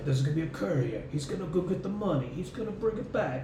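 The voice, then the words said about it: Imitates another person's voice. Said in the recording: “good Christopher Walken impersonation ... You sound more like the guy from The Godfather than you do Christopher Walken”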